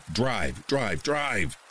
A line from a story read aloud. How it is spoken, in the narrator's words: instantly yelled